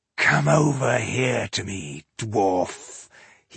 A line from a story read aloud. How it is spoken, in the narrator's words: he growled